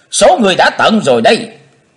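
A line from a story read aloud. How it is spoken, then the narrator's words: Shout. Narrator (Vietnamese): Trong tiếng hét, Chí Tôn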